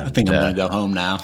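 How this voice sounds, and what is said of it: Forrest Gump impression accent. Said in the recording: “that moment in Forrest Gump ... you do it with the perfect accent”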